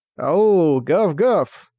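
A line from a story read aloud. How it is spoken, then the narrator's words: Loud howling. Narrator (Russian): Тайк, громко завывая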